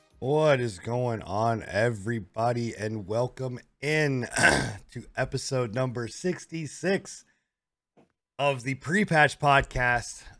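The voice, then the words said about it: Raspy, sick-sounding voice. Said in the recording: “I am your raspy, sick, coughing host ... Way better than you from the sound.”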